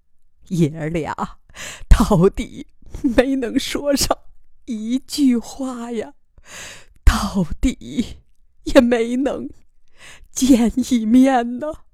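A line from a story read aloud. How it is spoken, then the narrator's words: Tearful lament. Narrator (Chinese): 天乐妈哭诉着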